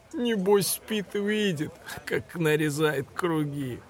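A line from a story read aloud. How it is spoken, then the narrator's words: Giggling. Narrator (Russian): хихикнул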